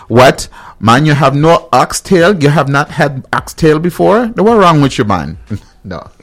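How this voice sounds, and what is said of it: Put-on Caribbean accent. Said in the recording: “I'm going to go in my Caribbean voice.”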